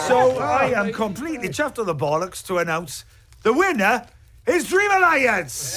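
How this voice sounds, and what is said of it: Welsh accent. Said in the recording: “accent ... I love the Welsh accent”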